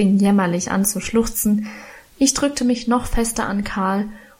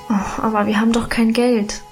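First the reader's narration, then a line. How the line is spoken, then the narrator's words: Sighing. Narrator (German): seufzte ich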